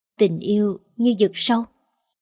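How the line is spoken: Soft. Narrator (Vietnamese): Tuyết nói khẽ

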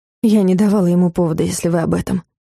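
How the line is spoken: Breathy exhale. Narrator (Russian): выдохнула

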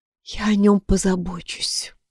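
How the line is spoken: Whispered. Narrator (Russian): прошептала Амелия

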